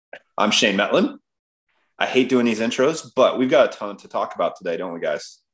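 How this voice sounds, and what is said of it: Deep congested voice from a cold. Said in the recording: “I've got a radio voice now, that I've got a little bit of a cold”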